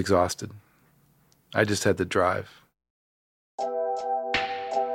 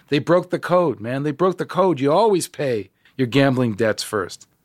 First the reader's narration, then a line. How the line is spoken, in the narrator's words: He was yelling to me